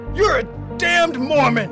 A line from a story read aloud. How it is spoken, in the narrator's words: the mob hollered back